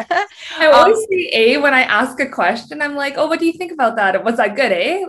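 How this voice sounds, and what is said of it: Canadian English accent. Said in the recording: “I hear your accent ... you're Canadian ... So Canadian”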